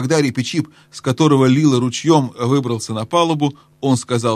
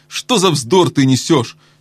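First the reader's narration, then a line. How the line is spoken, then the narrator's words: Angry shout. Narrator (Russian): сердито прикрикнул на него Дринян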